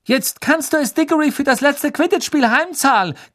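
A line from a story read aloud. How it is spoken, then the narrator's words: Shriek. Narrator (German): kreischte Katie Bell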